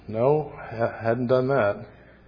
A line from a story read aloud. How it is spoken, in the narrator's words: The father quietly said